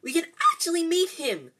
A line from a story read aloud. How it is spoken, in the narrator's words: Hermione squealed